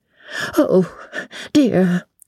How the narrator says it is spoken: breathed the little old lady, and shuddered

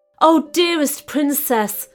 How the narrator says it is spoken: exclaimed the caliph

